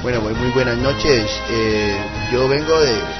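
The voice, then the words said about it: Poor attempt at Spanish accent. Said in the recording (Spanish): “¿Qué acento es este, maldita sea? ... tiene muy mal acento ... Ya es de Almería ... ¿Por qué no me sale el acento español?”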